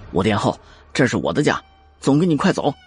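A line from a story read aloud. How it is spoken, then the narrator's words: Grim, serious. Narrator (Chinese): 穆青咬了咬牙，而后谨色道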